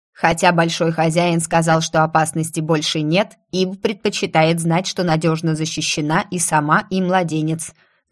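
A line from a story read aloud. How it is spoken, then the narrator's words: Creaky synthesized voice. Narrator (Russian): заявила она своим скрипучим синтезированным голосом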